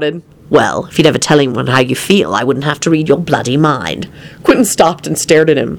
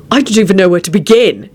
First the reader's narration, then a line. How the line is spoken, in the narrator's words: he barked